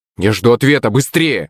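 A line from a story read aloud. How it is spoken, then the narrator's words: Sharp blurt. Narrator (Russian): резко выпалил я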